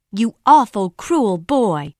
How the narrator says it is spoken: shouted

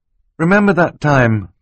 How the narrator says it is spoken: Klaus said wistfully

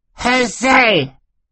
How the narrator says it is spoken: Sunny shrieked

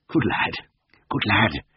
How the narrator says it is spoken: muttered Siegfried, still looking around him guiltily

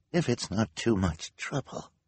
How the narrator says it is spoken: the woman said in a weak voice

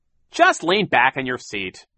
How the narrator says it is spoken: Captain Sham said sharply

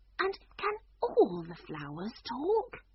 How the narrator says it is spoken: she said, almost in a whisper

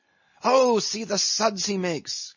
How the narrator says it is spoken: cried Flask, dancing up and down

